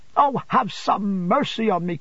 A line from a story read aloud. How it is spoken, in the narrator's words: cried Emily